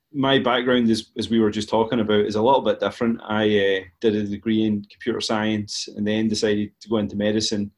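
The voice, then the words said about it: Strong Scottish accent. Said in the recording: “a Scotland-based company ... hence the wildly strong accent”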